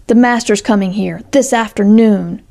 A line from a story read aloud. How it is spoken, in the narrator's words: she exclaimed